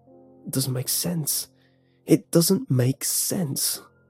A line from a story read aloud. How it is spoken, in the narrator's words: one was mumbling